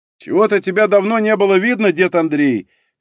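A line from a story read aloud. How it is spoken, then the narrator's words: Young man shouting while running. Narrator (Russian): крикнул на бегу молодой работяга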